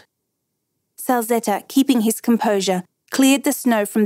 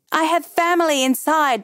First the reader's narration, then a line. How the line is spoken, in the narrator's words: Perete yelled